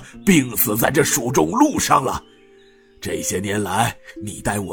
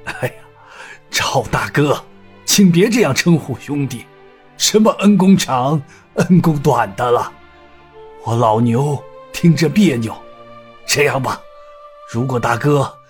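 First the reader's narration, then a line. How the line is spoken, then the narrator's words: Wry, forced smile. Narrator (Chinese): 牛太官苦笑道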